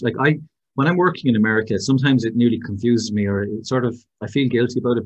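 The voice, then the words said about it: Irish accent. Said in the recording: “oh my God, your accent, say that again ... you Irish guys, you're so funny. Your accent is amazing.”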